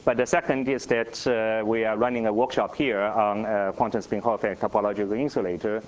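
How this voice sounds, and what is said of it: Voice with a slight cold. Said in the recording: “I have a little cold”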